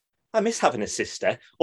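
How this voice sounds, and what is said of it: Imitates another person's voice. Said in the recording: “that's a bad impression of that.”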